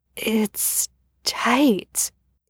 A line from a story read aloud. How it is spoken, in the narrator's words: he whispered